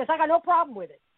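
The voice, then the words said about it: Bronx New York accent. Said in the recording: “New York accent ... The Bronx girl in me comes out like that”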